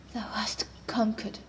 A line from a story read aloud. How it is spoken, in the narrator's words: she said, or the murmurs of the water deceived me